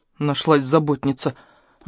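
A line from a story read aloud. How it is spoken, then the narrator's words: Offended grumble. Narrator (Russian): буркнула обиженно Мика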